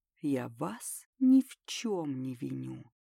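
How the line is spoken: Quiet, smiling speech. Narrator (Russian): Марат с трудом ... тихо, с легкой улыбкой на лице, произнесет

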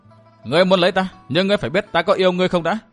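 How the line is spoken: Laughing loudly. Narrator (Vietnamese): Nàng cười lớn hơn rồi nói tiếp

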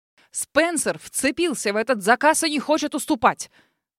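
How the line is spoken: Exclamation. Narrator (Russian): воскликнул мистер Джордж

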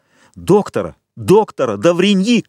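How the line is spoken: Shouted. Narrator (Russian): крикнул Вильфор

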